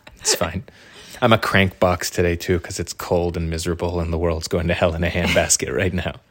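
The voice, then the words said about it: Nasal, stuffed-up voice. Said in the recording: “I'm nasal, I think ... I'm all stuffed up.”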